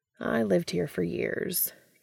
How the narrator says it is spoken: Castiel says wistfully

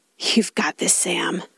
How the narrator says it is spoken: murmur

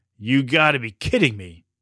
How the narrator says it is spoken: said Finn

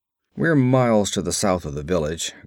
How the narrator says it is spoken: grunted Conan

